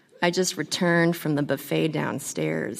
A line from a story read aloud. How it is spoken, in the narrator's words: he said